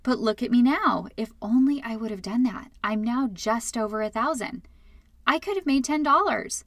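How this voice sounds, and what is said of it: Sarcastic delivery. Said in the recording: “Can you hear the sarcasm in my voice?”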